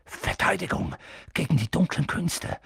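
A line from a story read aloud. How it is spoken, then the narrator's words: Reluctant murmur. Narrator (German): murmelte Professor Quirrell, als ob er lieber nicht daran denken wollte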